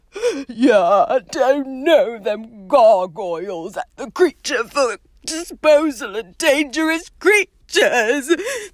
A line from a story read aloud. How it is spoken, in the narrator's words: choked Hagrid, wiping his eyes on his sleeve